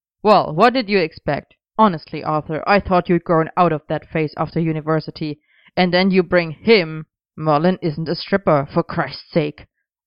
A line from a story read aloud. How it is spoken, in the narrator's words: Arthur barked